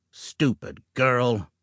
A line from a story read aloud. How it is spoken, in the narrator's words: Jim growled